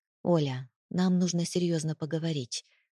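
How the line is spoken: Soft, hated voice. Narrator (Russian): произнес он мягко, голосом, который я ненавидела больше всего на свете

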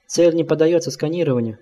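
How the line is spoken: Hurried ultrasonic signals. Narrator (Russian): наблюдатель торопливо обменивался с компьютером ультразвуковыми сигналами

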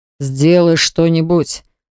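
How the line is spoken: Growled. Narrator (Russian): прорычал Баграт

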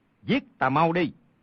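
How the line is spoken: Shout. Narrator (Vietnamese): quát lên

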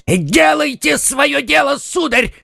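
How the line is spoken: Shouted. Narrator (Russian): крикнул Планше

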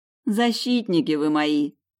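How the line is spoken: Touched, moved sigh. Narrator (Russian): растроганно вздохнула Лада

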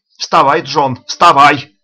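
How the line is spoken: Shouting. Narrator (Russian): кричал он

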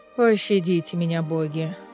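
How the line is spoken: Moaning plea. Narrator (Russian): Простонал Кассиан

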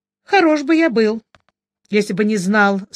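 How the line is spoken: Stern. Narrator (Russian): строго сказал Джуфин

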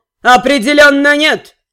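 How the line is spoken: Thundering voice. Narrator (Russian): прогремел Балкан

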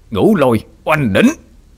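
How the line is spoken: Loud roar. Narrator (Vietnamese): Bác gầm lớn

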